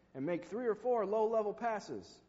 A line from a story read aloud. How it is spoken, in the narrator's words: yelled the photographer